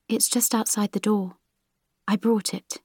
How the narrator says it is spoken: she replied, still whispering

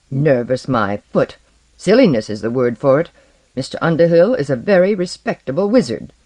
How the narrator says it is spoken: their mothers all replied grimly

